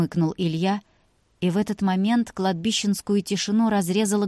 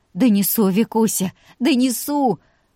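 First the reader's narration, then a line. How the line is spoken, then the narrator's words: Grateful sobbing. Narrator (Russian): Всхлипнув благодарно, сказала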